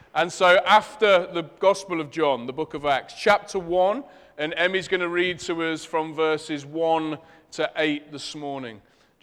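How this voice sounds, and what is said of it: Leicester English accent. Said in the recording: “my Leicester accent makes it sound like an axe”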